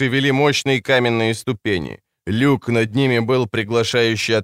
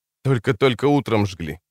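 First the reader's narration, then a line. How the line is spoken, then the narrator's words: Muttered. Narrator (Russian): пробормотал он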